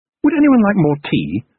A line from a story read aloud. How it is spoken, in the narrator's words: said Ariadne brightly